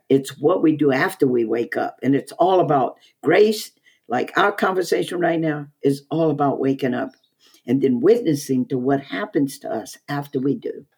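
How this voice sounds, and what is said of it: Southern drawl. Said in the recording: “that particular way that you have that Southern drawl. I hear salt and light in your voice.”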